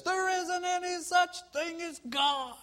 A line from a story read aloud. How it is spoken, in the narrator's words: the atheist neighbor would loudly protest